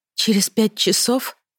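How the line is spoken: Sighing. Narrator (Russian): вздохнула

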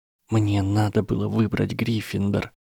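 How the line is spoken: Tearful whisper. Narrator (Russian): прошептала Гермиона и часто заморгала, сдерживая подступающие слезы

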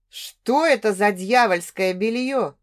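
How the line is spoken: Growled. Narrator (Russian): прорычал

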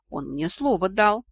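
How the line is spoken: Confused mumble. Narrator (Russian): Растерянно пробормотала я

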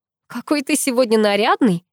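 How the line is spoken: Soft laughter. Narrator (Russian): негромко рассмеялась я

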